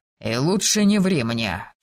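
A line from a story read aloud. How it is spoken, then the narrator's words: Quieter warning tone. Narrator (Russian): чуть тише сказал он предупреждающим тоном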